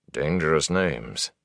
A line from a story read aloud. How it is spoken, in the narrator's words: Tom muttered